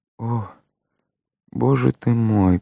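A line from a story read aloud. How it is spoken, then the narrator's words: Muttered under breath. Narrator (Russian): пробормотала она себе под нос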